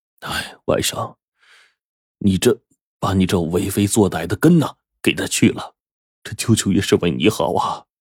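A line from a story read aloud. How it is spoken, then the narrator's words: Sighing. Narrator (Chinese): 陆桥叹了口气说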